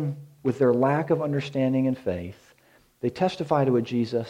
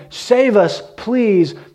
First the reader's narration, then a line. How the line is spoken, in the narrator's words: Jesus is inwardly praying, pleading with the Father